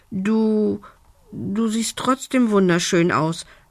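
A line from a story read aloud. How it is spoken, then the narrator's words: Embarrassed stammer. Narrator (German): stotterte Lumbi verlegen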